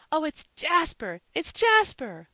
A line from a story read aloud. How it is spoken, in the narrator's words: cried all the children in a breath